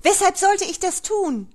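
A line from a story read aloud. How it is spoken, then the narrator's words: Shouting into phone. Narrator (German): schrie Frau Brandenburg in den Hörer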